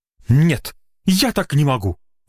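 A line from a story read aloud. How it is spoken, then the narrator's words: Exclamation. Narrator (Russian): воскликнул Маргуля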